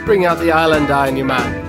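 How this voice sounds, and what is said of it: Put-on Jamaican accent. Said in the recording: “your Jamaican accent”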